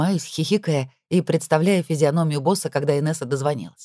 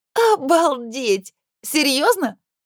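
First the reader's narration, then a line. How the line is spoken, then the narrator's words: Surprised laughter. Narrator (Russian): Диана начинает хохотать, удивляясь моей смелости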